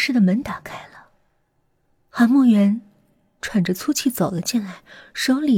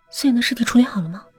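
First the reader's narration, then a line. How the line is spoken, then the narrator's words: Hurried question. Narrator (Chinese): 姚小诗急忙问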